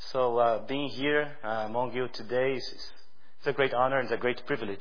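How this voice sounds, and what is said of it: Strong foreign accent. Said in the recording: “my strong foreign accent”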